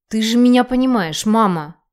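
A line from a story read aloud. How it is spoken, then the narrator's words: Angry whisper. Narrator (Russian): я зло шепчу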